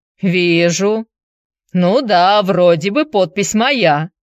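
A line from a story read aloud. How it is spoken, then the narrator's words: Blacksmith grumbled. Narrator (Russian): буркнул кузнец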